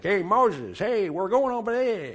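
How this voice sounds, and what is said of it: Edward G. Robinson New York accent. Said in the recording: “Edward G. Robinson in the movie ... speaking with the New York accent.”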